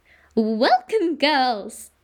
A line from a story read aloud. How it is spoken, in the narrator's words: said Miss Cackle, smiling fondly at her flock of pupils